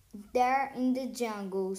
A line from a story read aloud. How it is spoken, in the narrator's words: said Baltasar